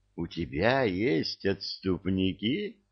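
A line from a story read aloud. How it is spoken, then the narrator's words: Purring over the phone. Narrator (Russian): промурлыкала трубка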